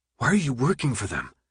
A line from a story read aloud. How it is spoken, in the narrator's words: His voice sounded weak to his ears